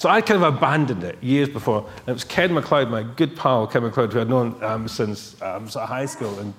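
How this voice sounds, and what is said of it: Usual voice. Nothing is said of it.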